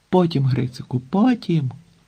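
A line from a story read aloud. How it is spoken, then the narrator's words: Exclamation. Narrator (Ukrainian): вигукнув Санько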